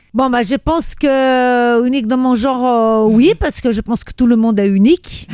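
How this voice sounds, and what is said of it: Brazilian accent in French. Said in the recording (French): “je suis la seule à avoir un accent brésilien”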